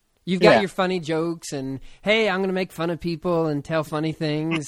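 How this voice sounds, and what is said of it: Imitates another person's voice. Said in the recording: “worst Jimmy Fallon impression ever ... That was your impression, not the Jimmy Fallon”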